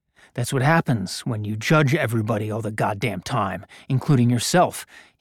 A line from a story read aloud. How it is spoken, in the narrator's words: he muttered under his breath